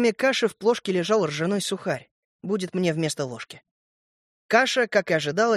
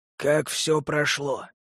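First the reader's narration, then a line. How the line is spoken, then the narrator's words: Hoarse, commanding voice. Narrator (Russian): спрашивал кто-то хриплым властным голосом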